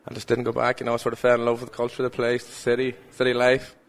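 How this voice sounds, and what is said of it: Irish accent. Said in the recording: “every variety of the Irish accent fills the stadium ... There's players from all over Ireland playing it, you know, so a lot of different accents”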